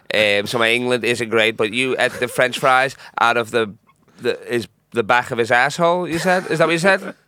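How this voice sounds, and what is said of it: Put-on Italian accent. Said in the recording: “I'm from Sicily. ... Italy. ... Your accent.”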